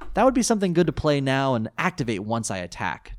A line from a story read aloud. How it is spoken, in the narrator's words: Tyler said cheerfully